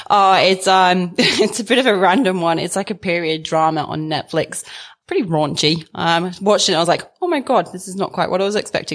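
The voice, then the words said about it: English accent. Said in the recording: “as people can probably hear, you have a bit of an accent ... you're clearly not local ... I'm a token pommy”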